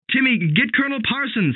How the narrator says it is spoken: he cried

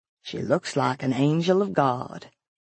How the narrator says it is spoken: he murmured

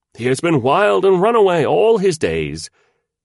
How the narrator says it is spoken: Wang the landlord said loudly

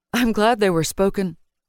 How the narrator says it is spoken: Danil replied with an unexpected laugh

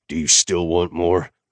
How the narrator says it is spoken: I growled

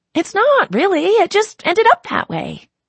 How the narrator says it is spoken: she chirps

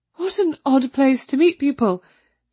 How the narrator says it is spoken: she said nervously

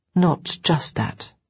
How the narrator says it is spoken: I said quietly

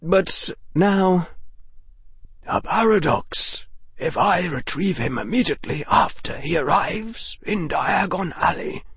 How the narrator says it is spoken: murmured the old wizard to himself

